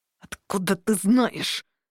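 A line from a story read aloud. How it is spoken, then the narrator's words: Through gritted teeth. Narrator (Russian): сквозь зубы процедил Дернут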